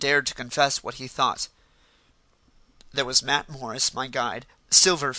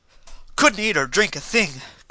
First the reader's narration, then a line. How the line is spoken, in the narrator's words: cried the other